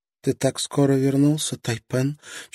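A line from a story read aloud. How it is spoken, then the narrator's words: Barely audible. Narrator (Russian): чуть слышно произнесла Мэй-Мэй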